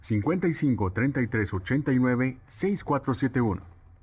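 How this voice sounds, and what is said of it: Professional radio announcer voice. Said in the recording (Spanish): “repite por favor con voz de locutor profesional”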